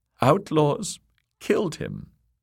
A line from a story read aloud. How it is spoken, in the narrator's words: sobbed Lady Amory